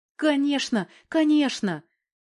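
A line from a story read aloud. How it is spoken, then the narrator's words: Joyful relieved old man's babble. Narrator (Russian): Радостно прожурчал пенсионер, чувствуя, что хватка ослабла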